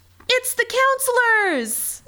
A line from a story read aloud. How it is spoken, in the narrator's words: One of the campers yelled out